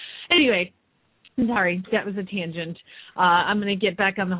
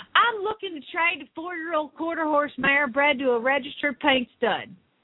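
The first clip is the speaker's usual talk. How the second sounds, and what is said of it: Put-on Southern accent, yelling. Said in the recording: “she requested a Southern accent, I believe. This is in all capital letters, by the way. So imagine me yelling at you.”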